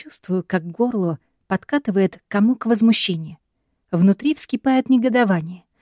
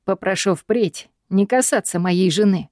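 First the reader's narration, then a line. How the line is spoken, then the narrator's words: Calm, even tone. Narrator (Russian): поразительно ровным и невозмутимым тоном отвечает Гай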